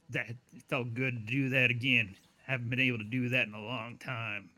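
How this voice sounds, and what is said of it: Badly done put-on accent. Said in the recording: “I apologize for doing your accent really, really horribly.”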